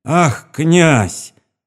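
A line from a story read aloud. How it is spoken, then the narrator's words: Woman's sudden cry. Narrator (Russian): вскрикнула женщина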